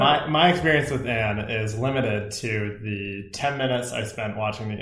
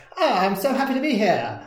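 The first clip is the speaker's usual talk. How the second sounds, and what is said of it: Put-on transatlantic accent. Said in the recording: “everyone speaks in almost that transatlantic accent, like”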